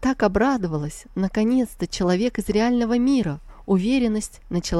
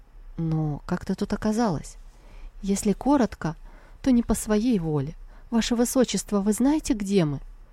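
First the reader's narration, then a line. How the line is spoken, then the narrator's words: Stunned mutter. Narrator (Russian): Ошеломленный Сяо Линь пробормотал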